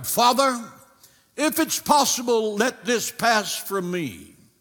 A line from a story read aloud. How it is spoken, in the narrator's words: In agony, cried